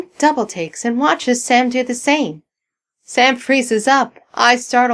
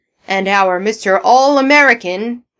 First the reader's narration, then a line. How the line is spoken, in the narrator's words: bellows Bergen, as the applause for Sam dies down